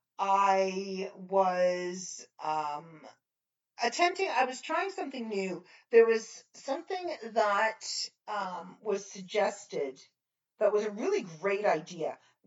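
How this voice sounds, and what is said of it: Strained voice, losing their voice. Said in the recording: “as you can probably hear, I'm starting to lose my voice.”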